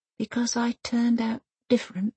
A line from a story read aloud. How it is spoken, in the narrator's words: she whispers